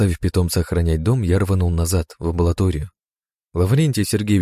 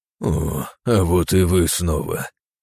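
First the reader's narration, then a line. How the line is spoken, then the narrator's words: Hoarse rasp. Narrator (Russian): прохрипел Лаврентий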